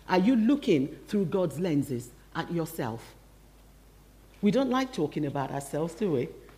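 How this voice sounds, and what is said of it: Nigerian accent, partly faded. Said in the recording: “I was born in Nigeria. I hope you can still tell by my accent. It hasn't completely disappeared.”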